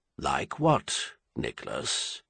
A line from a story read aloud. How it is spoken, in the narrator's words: Clinton asked gently